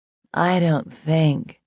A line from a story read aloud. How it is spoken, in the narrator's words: she said dreamily